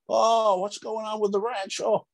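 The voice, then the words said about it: Bad James Stewart impression. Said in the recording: “Worst James Stewart impression.”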